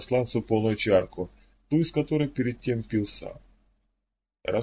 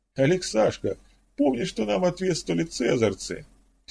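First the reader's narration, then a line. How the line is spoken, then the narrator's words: Dropped casually while still laughing. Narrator (Russian): Все еще смеясь, обронил Петр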